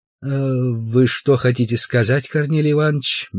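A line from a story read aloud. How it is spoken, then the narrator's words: Soft question. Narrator (Russian): мягко спросил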